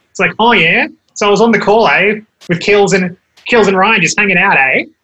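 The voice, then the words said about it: Exaggerated nasal Australian accent. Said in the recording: “that accent is hardcore and just Australian-ness... you got to go a bit more nasal. So like, you can turn it on and it gets, everything's a question”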